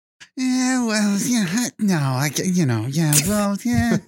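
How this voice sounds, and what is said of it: Impression of a friend, repetitive yeahs. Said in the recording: “Do a Max impression ... Is that how I sound? ... the yeah-yeahs are necessary ... it's less what you're saying and how you're saying it”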